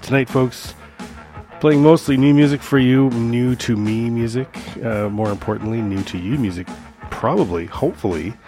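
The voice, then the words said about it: Slightly unwell, off-sounding voice. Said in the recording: “my voice is a little wonky. I'm feeling a little under the weather”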